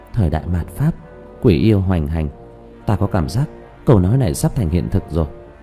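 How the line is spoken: Muttering. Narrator (Vietnamese): Nhuế Lãnh Ngọc chỉ lẩm bẩm

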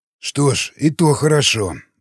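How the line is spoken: Ogre sighing. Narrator (Russian): вздохнул людоед

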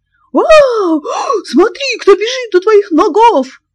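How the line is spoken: Frenzied shout. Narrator (Russian): крикнул неистовым голосом

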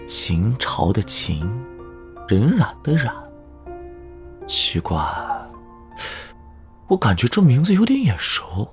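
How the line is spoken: Lowered voice. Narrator (Chinese): 邢开压低声音

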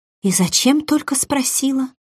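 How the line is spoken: Gloomy mutter. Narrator (Russian): пробормотала сестра с мрачным видом

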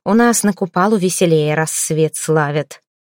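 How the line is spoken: Grumbled. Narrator (Russian): лишь проворчала

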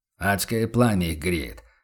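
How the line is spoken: Muttering merchant. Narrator (Russian): пробурчал торговец Феликс, яростно дыша на руки

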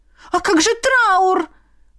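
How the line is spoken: Exclaiming restless widow. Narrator (Russian): воскликнула неугомонная вдовушка

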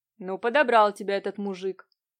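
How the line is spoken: Displeased tone. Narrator (Russian): продолжил Нелидов тем же недовольным тоном

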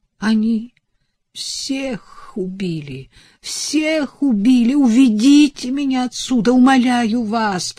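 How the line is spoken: Moaning plea. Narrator (Russian): простонала она

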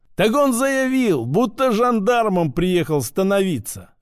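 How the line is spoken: Laughing. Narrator (Russian): рассмеялся городовой

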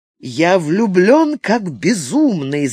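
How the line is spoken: Joyful declaration. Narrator (Russian): заявил Терри, радостно глядя на него

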